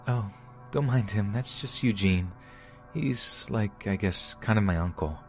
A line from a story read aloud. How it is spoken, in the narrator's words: she said in her soft voice